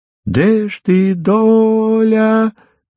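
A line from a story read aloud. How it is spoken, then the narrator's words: Drawn-out sad reedy tenor song. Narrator (Russian): Запевал Ромка протяжно и грустно, немножко петушиным своим тенорком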